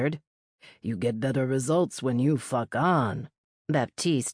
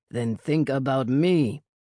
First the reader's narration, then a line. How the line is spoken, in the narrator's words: his beast growled